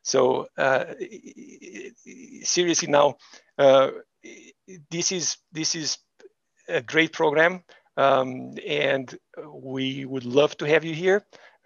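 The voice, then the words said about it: Non-native English accent. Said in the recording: “my accent... the other professors, their accent is much better than mine... my accent goes away and my English gets perfect”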